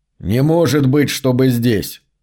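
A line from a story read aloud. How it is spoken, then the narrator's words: Plain. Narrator (Russian): сказал кочевник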